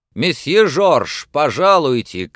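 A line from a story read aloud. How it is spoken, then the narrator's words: Shouting behind a door. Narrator (Russian): крикнул кто-то за дверью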